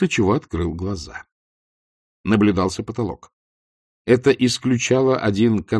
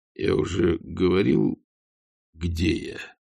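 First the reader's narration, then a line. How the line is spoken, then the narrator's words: Strained, forced out. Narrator (Russian): выдавил Ваймс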